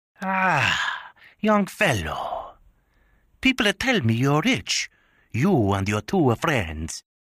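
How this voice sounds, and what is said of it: Very thick Sicilian accent. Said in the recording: “He spoke with a very thick Sicilian accent.”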